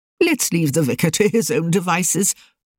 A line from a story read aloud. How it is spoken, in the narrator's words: said cheerfully